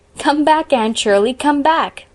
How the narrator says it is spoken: laughed Philippa

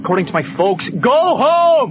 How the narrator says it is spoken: He yells again with the bark of a man

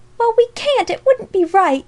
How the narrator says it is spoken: gasped Alexia

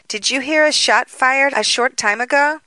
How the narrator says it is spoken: she exclaimed

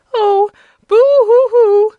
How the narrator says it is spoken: sobbed the woman, giving way to a fresh burst of grief

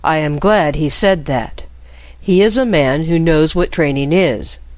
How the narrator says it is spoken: said Loristan

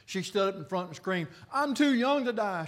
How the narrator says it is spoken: she cried

